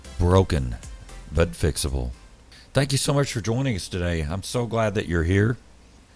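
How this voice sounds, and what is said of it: Slightly frazzled, worn voice. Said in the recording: “My voice is a little bit frazzled from having church today”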